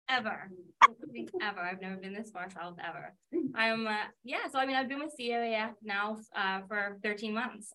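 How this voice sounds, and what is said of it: Distinct regional accent, not Southern. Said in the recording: “she just has the best accent, unlike me... I love your accent... The difference in the way you and I talk, though, is just so funny, because I do have like that Southern slang. And this is as far south as ... ever been”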